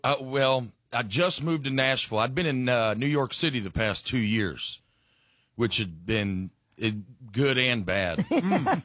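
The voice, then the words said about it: Southern North Alabama accent. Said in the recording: “let's pinpoint the accent right away. You grew up where? ... North Alabama. right outside of Huntsville ... My accent catches some strays in New York City”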